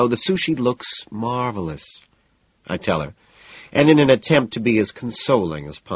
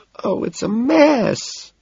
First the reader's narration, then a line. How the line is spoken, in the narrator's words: she wails